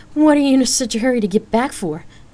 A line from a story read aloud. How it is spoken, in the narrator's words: Danielle asked with a laugh, in an attempt to lighten the mood